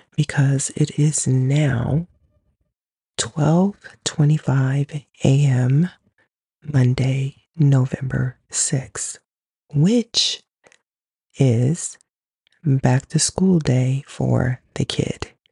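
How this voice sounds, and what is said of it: Whispering. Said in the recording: “if it sounds like I'm whispering, I am”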